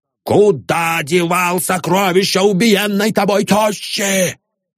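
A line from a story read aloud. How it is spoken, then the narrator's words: Hoarse shout. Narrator (Russian): закричал охрипшим голосом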